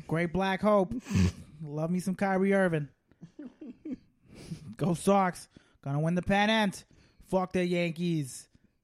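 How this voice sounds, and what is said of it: Put-on Boston accent. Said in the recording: “Not the worst accent I have... a Boston accent”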